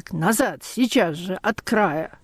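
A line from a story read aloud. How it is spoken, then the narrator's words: Hoarse, unrecognizable shout. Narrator (Russian): хриплый, неузнаваемый крик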